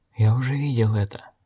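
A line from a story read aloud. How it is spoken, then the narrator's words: Whisper. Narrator (Russian): прошептал охотник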